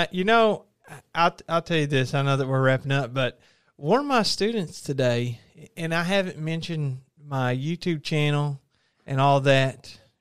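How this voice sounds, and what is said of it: Southern twang accent. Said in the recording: “you really turn on your accent whenever you do your YouTube videos ... I guess on here, we really got the Southern twang going.”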